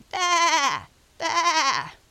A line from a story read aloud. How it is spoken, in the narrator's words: more loudly